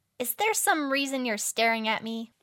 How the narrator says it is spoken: She piped

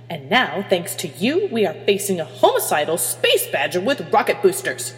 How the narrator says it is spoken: Hermione snarled

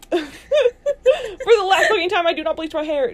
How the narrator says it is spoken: Draco yelled, his face turning red with anger

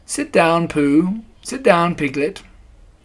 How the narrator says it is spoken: said Owl kindly

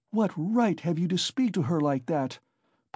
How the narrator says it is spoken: Pulcheria Alexandrovna intervened hotly

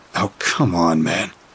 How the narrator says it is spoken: I muttered

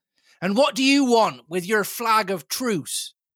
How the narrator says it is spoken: he cried

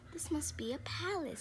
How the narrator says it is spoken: Corduroy gasped

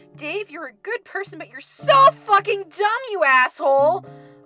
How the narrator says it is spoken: I shouted at him

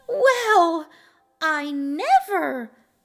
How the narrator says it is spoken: she cried, full of smiles

